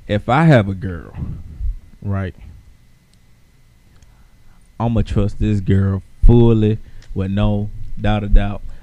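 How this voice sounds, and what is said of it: Regional Southern US accent. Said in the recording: “I love your accent ... Where the accent come from? ... Hell, Macon. ... it's just an accent.”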